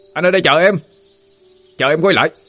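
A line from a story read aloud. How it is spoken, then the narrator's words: Shout. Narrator (Vietnamese): anh Quy hét lên một câu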